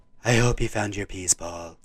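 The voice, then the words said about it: Imitates a TV character's voice. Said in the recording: “your Rita impression”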